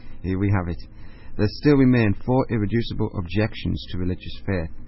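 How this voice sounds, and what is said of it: Northeastern English accent. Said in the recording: “that beautiful northeastern English accent”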